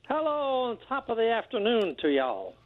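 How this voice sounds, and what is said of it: Mixed Irish and Southern accent. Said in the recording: “That's a combination of Irish and Southern accents. ... Right, that was very impressive.”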